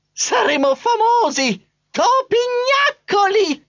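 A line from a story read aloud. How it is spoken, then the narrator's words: Shrill boastful squeal. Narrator (Italian): strillava Trappola, pavoneggiandosi con aria da padrone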